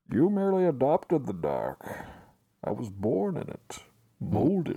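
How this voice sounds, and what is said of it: Bane impression from Batman. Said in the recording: “I could do Bane from the Batman movies ... That's pretty good. Pretty good.”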